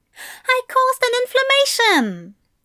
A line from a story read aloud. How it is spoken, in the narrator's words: Aziraphale exclaimed